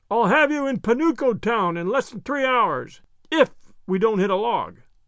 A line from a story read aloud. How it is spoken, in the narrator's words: Peter shouted in Wemple's ear